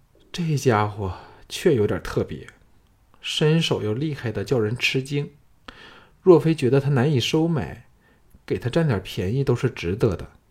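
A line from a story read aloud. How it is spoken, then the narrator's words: Sighing. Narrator (Chinese): 董树贞叹了一口气说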